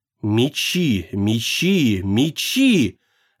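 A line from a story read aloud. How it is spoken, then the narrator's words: Strange whisper. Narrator (Russian): чужой шепот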